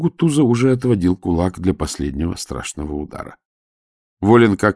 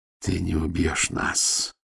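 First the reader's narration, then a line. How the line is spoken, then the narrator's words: Dull, hollow voice. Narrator (Russian): глухо проговорил Матео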